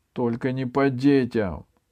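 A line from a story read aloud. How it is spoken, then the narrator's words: High-pitched shout. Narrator (Russian): тонко крикнул Андраковский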